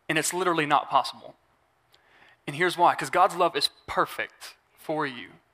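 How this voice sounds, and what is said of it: Speaks with a noticeable accent. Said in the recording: “Sometimes my accent messes me up.”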